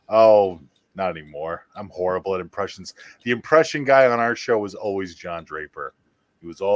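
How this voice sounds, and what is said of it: Usual voice. Nothing is said of it.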